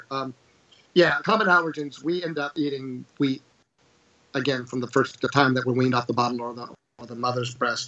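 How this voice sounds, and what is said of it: Sick-sounding voice. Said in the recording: “pardon my voice, I'm getting over a terrible contagion here in southwestern Virginia. It's some version of the plague, I think.”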